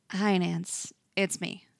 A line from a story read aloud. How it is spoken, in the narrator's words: him say quietly into the receiver